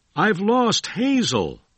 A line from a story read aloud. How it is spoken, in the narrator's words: William Wallace cried to his friend